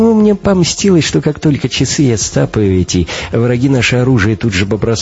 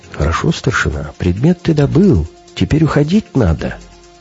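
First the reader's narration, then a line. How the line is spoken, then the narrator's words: Soft whisper. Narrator (Russian): тихонько так шепчет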